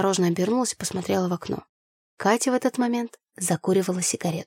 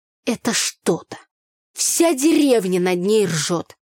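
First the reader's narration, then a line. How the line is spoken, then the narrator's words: Through gritted teeth. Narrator (Russian): Сквозь зубы проговорила Таня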